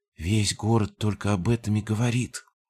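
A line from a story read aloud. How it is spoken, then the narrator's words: Quiet. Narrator (Russian): тихо сказала она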